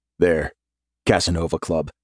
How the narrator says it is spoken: he says, his tone pavement flat

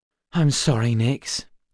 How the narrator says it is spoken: sighed

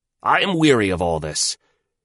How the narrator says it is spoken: he shouted out

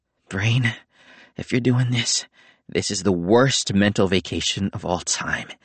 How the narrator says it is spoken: he said bitterly

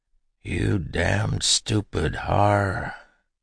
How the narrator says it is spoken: croaked

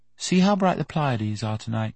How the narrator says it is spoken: he said softly

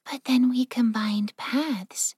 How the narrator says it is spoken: Yukiko murmured

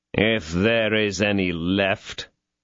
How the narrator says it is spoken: growled Athos in a sneering tone

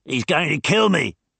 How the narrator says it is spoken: shouted Tracy

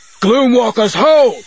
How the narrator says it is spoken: Dez barked

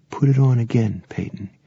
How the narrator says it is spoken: Randy said softly

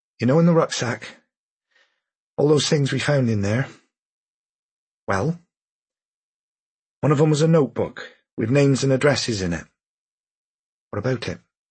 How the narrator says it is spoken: He sighed, and then he said

